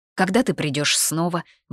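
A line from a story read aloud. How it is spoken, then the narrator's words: Anxious question. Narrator (Russian): взволнованно спросил Ридиан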